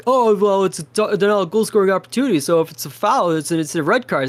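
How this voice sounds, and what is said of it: Mocking impression of an annoying commenter. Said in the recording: “Is that your impression of a Philadelphia fan? ... that's my impression of a person I don't like.”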